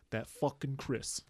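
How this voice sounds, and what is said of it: Put-on mobster accent. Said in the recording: “a mobster who was listening and be like... that's offensive, that accent”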